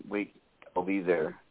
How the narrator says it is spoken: says

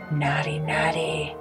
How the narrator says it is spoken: he said in a cruel, mockingly voice

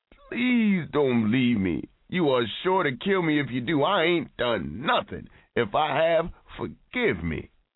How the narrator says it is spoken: His agonized eyes walled up at her as he wailed

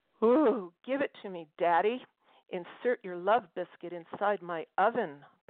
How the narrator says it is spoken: purred Forest Lawn, speaking for the mannequin

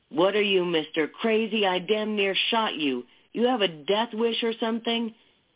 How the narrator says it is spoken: a man say in a furious voice

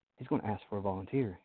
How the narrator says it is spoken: whispered under his breath

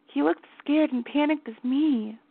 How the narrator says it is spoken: she whispered

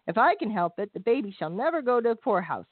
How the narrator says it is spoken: Roger said

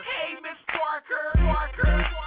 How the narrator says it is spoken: holler

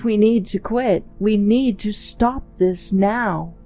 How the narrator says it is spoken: He stammered

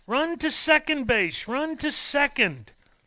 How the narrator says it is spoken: Everyone yelled

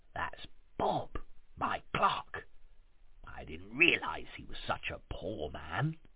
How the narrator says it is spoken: said Scrooge, whispering

